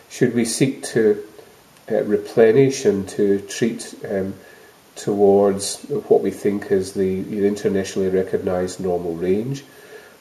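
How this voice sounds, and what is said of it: Scottish accent. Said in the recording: “I'm Scottish, as you know, one can tell by accent”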